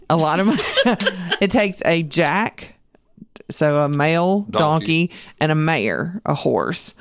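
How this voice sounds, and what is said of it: Southern American accent. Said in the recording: “my southern accent gets the better of me some days”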